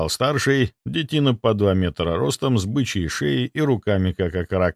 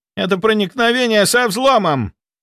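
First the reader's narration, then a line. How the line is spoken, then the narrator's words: Young guard barking. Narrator (Russian): рявкнул 2-й охранник помоложе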